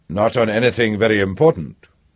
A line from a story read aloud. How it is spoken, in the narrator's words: Emmanuel said dryly